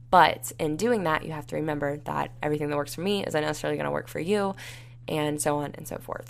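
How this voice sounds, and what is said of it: Raspy, dry-sounding voice. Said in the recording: “my voice sounds like extra raspy”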